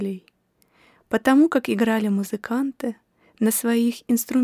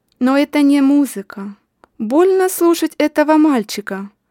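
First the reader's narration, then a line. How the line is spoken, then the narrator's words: Man shouting. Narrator (Russian): крикнул мужчина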